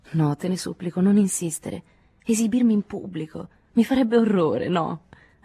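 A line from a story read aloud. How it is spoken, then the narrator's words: Pleading, repeated. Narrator (Italian): ripeté con voce implorante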